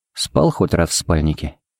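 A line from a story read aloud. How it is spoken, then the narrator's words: Quiet question. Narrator (Russian): поинтересовался Хари негромко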